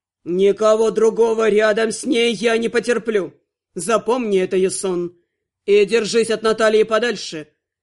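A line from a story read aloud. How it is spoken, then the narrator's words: Growl. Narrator (Russian): рыкнул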